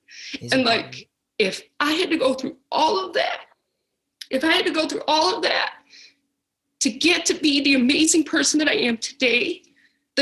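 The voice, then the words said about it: Emotional, choked-up voice. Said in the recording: “I'm sorry that I'm getting emotional”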